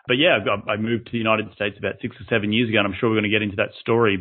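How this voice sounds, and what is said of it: Australian accent. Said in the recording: “you are not from the United States with that the way you introduced yourself there ... I'm originally from Australia”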